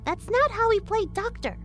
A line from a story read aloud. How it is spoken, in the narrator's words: Sarah chirped out